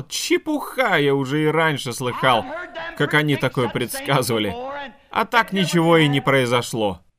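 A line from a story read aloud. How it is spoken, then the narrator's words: Mocking laughing speech. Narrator (Russian): посмеялся над ним и сказал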